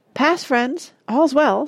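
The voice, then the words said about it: Trembling voice. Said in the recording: “in a trembling voice”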